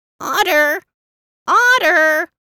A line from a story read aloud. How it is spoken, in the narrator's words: screeched Eagle